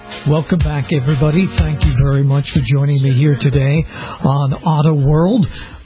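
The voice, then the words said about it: Voice slightly under the weather. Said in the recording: “My voice is a little bit under the weather as I continue to have some occasional voice problems”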